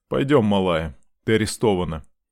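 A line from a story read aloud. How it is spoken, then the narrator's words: Flat, even voice. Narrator (Russian): ровным голосом сообщил мне мент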